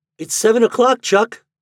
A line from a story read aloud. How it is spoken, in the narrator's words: he cried